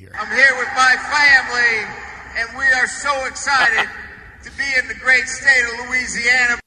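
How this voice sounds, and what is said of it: Phony Southern accent. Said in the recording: “Southern Brian Kelly ... sounds like a phony Southern accent”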